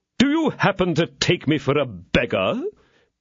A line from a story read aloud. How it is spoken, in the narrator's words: said Porthos haughtily